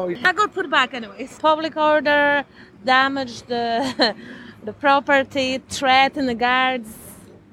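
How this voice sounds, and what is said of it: Polish accent. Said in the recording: “Where's your accent from, please? ... Poland.”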